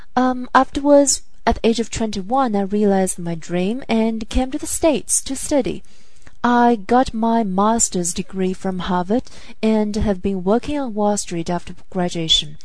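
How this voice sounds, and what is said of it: Mixed Chinese, American and British accent. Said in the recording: “an accent, which mixes Chinese, American, and the British ways of speaking”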